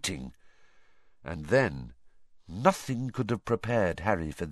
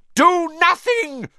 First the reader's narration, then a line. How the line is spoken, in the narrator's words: Voldemort shrieked to the Death Eaters